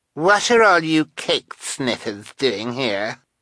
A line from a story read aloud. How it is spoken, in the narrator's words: demanded Carmelita, in an obnoxious voice the two siblings found equally familiar